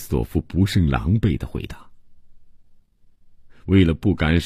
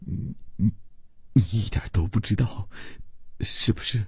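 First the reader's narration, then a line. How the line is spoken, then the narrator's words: Frightened, pleading stammer. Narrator (Chinese): 伯罗姆瞧见克里斯朵夫神色紧张，吓得不愿意再看，只用哀求的目光结结巴巴地说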